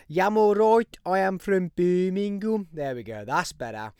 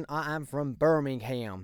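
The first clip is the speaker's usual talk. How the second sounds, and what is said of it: Put-on American accent. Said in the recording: “No, nope, that's definitely an American accent.”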